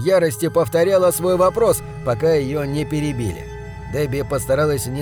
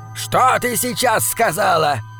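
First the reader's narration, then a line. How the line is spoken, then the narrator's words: Old woman shouting. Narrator (Russian): крикнула старуха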